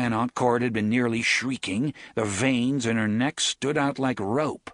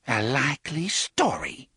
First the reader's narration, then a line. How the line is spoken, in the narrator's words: Cordelia whispered at last